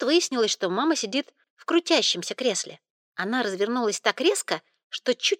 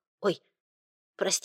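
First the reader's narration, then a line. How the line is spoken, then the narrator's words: Frightened. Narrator (Russian): сказала она испуганно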